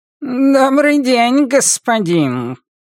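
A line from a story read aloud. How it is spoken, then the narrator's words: Shrill purring voice. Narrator (Russian): произносит он пронзительным, мурлыкающим голосом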